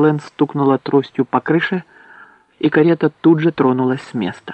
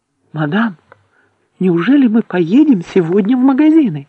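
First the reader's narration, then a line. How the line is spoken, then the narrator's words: Exclaiming. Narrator (Russian): воскликнула Элисте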